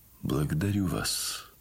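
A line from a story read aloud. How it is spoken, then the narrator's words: Quiet, sad voice. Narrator (Russian): сказал он ей тихим и печальным голосом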